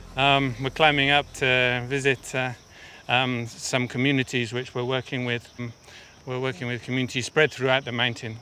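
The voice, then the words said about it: Out of breath while speaking. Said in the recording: “it's half an hour straight up, not half an hour long. So that's why I'm out of breath, sorry.”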